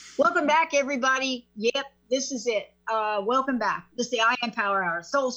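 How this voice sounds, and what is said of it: Usual voice. Nothing is said of it.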